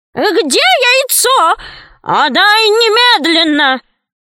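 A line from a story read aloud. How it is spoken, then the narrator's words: Shrieking. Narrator (Russian): визжала она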